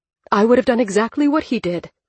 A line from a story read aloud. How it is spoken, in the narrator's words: the mother snapped